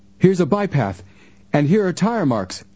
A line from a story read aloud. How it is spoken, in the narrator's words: Frank exclaimed